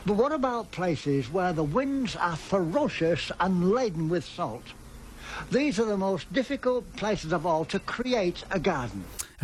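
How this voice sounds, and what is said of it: English accent. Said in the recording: “A very famous Australian voice English accent.”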